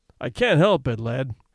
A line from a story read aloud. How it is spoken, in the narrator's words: he said kindly